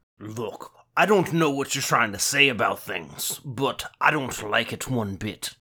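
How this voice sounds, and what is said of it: Gruff put-on Scottish accent. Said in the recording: “a gaudy Scottish accent, or at the very least, a very gruff demeanor ... I'm not good at Sean Connery.”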